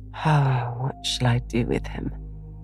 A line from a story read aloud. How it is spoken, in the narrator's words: Joe sighed, finding that emotions were more unmanageable than she expected